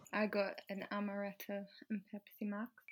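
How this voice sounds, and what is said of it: Put-on accent. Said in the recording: “I love how you did that in an accent.”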